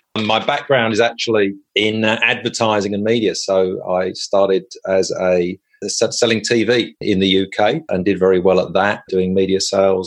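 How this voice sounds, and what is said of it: English accent. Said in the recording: “from my accent, this is, we'll probably understand, I'm originally from the UK. I'm English.”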